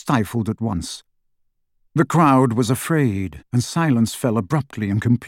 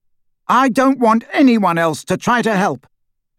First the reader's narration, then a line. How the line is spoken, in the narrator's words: Harry said loudly, and in the total silence his voice carried like a trumpet call